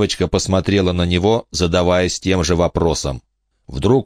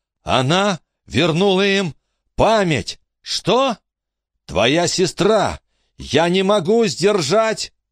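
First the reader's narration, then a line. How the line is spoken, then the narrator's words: Screaming in pain. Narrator (Russian): Он снова закричал от боли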